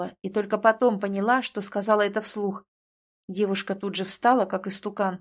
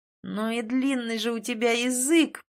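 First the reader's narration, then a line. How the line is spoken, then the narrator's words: Groaning. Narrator (Russian): простонал Тин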